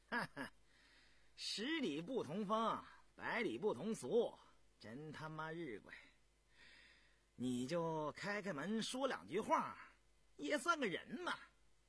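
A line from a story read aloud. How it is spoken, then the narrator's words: Laughing. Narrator (Chinese): 坎儿回来笑道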